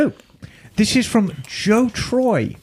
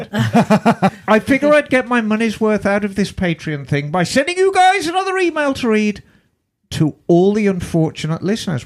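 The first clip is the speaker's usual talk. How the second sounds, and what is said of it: Put-on English accent. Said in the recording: “Where's the accent? ... He's got an English accent.”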